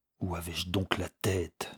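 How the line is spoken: Muttered through clenched teeth. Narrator (French): murmurait-il, les dents serrées

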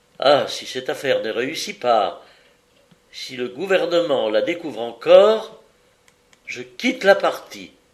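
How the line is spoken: Pained cry. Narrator (French): Il s'écria avec douleur

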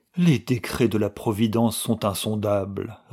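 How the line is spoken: Sighing. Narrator (French): répétait-il en soupirant

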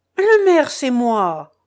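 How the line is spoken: Exclaimed by a postmaster. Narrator (French): s'écria le maître de poste

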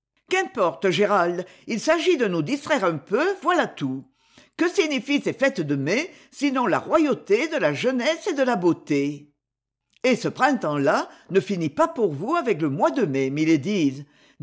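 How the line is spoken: Cheerful. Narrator (French): dit gaiement Lord Dorwilly

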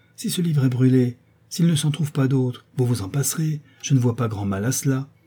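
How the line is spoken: Brisk retort. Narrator (French): répliqua vivement la marquise

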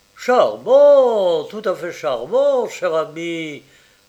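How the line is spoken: Delighted exclamation. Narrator (French): s'écria le comte dans le ravissement

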